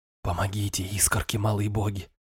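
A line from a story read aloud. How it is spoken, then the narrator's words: Soundless whisper. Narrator (Russian): беззвучно прошептал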